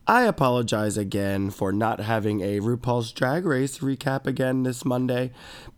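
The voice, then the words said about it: Stuffy, nasal, congested voice. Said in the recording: “this sickness has been kicking my ass. I've been sick. ... tell from my voice ... it's very stuffy and nasally ... sinus congestion”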